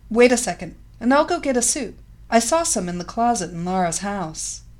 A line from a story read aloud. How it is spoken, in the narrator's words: Maria's face brightly illuminated, and she quickly answered